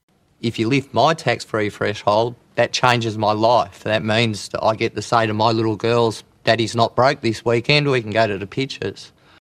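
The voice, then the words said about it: Strong accent. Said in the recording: “He had a bit of a strong accent”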